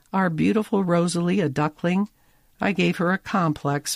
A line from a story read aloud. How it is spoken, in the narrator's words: Molly moans